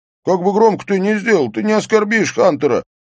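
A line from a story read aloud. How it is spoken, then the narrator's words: Shouting. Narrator (Russian): прокричал Эйстейн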